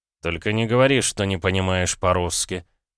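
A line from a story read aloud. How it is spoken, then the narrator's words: Mutter. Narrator (Russian): пробормотал я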